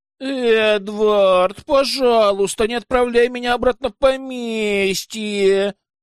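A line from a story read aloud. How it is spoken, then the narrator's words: Whimpering. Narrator (Russian): захныкала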